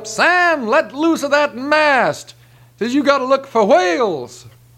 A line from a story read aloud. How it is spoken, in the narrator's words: The captain hollers up